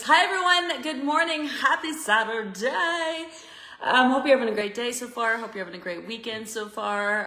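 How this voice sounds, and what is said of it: Slightly hoarse voice. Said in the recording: “I actually just woke up from having a nap, so my voice is a little hoarse.”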